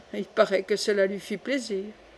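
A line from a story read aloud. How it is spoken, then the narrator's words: Murmured. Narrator (French): murmura Coconas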